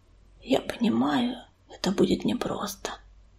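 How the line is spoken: Whisper. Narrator (Russian): прошептал он

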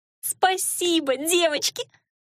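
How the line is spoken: Grateful squeak. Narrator (Russian): благодарно пискнула Элира

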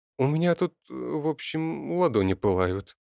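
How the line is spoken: Hesitant. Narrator (Russian): неуверенно начала Алена

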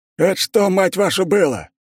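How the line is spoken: Yelling over radio. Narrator (Russian): орал в рацию старший офицер полевого лагеря на границе с землями Булатовых

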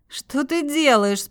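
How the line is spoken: Indignant question. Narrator (Russian): спросила возмущенно

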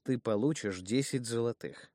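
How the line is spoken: Calm repetition. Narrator (Russian): спокойно повторил я

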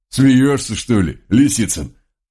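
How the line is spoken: Good-natured chuckling man. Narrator (Russian): Добродушно хохотнул донец

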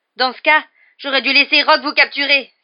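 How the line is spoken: Exclaiming. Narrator (French): s'exclama Harry

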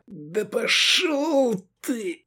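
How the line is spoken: Hissed. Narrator (Russian): прошипел Мир Арзал

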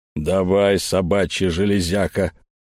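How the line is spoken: Growling. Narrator (Russian): прорычал Эльм

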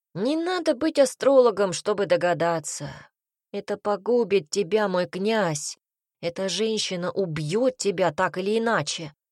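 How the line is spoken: Sighed. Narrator (Russian): вздохнул Цинта

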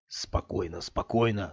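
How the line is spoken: Whispered. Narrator (Russian): слетел с губ шепотом

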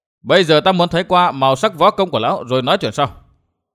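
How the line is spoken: Raised voice. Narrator (Vietnamese): Gã cao giọng

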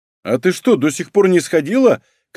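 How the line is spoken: Shouted from another room. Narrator (Russian): крикнул медикамент, ушедший к себе

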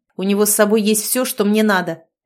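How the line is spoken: Barking outburst. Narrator (Russian): рявкнул, не сдержавшись, Лис

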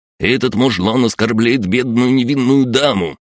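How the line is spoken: Indignant yell. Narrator (Russian): возмущенно провопил князь

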